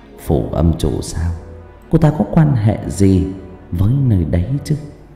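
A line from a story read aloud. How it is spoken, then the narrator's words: Suspicious muttering, old woman. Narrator (Vietnamese): Lão bà nghi ngờ lẩm bẩm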